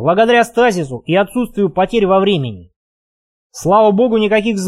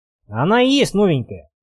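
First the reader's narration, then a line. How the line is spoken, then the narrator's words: Grumbled. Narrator (Russian): проворчал Вадим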